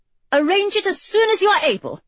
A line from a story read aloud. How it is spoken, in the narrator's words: she said sharply, a terrible thought springing to her mind